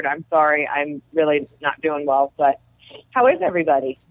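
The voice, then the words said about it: Sick, slightly odd-sounding voice. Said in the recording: “I'm really sick, so if I sound a little weird”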